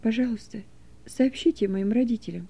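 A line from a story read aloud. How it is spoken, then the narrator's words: Barely audible whisper. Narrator (Russian): едва слышно прошептал он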